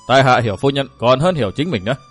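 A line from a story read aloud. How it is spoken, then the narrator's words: Laughing then speaking. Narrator (Vietnamese): bật cười khanh khách, y cắt tràng cười đó nói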